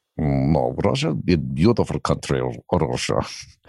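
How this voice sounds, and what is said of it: Put-on Russian accent. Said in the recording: “This is my Russian accent. I'm just actually working on it. As good as I'd hoped.”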